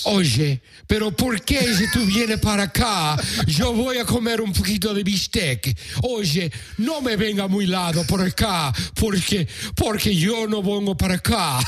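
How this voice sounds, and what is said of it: Deliberately bad put-on Argentinian accent. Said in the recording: “that's my fucked up Argentinian accent”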